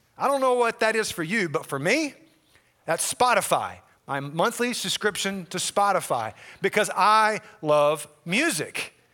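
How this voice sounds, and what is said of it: Southern US accent. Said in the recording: “grew up in the South, hear from the accent here”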